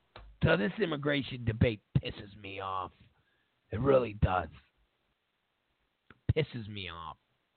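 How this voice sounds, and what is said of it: Hoarse, raspy, strained voice. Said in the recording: “my voice is dying over here... My voice is dying. So I sound like I smoke 17 packs of cigarettes a day.”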